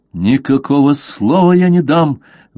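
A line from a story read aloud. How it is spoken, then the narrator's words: Young man exclaiming angrily. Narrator (Russian): воскликнул побледневший от гнева юноша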